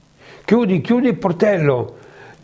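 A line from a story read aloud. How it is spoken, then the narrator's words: Yelled. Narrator (Italian): Ningal urlò a Zeusudra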